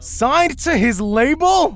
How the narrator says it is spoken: Stephen Buja shouted

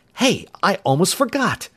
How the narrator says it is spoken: he exclaimed

